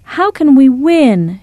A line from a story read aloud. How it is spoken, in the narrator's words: Shaquana cried